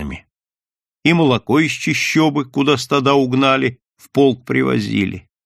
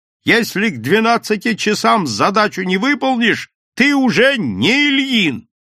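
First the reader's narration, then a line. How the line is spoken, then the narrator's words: Shouting over the phone. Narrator (Russian): Туманян по телефону кричал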